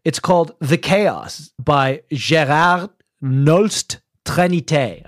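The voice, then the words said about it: Put-on French accent. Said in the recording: “I don't know why I said that in a French accent. He's Dutch.”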